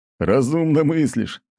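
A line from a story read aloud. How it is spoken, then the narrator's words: Captain laughing. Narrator (Russian): рассмеялся лысый капитан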